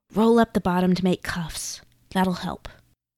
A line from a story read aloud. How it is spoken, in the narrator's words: whispered